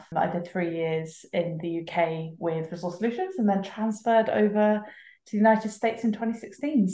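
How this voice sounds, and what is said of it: British accent. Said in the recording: “Accent's still going strong. ... your lovely British accent has not vanished in that time. So no one would have mistaken you as being a native of Brooklyn”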